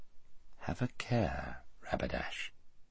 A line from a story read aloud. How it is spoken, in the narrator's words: said Aslan quietly